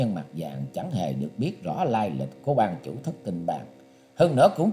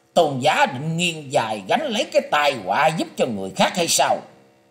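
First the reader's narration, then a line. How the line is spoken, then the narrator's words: Cold, harsh, stressed. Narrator (Vietnamese): Quái nhân mặt vàng không khỏi lộ vẻ sửng sốt, đôi mắt trở thành sáng quắc và lạnh buốt, gằn giọng nói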